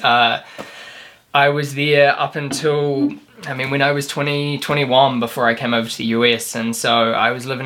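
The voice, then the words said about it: New Zealand accent. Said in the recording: “you were back home, or at least where you grew up, in New Zealand. So you're from New Zealand. ... you can probably tell with the accent.”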